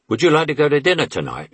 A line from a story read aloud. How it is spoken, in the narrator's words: I blurted out